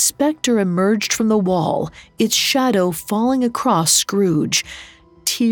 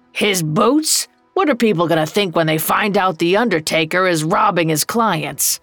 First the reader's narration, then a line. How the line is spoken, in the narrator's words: Old Joe growled